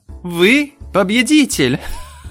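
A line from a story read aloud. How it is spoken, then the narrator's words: Laughing. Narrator (Russian): Джой расхохоталась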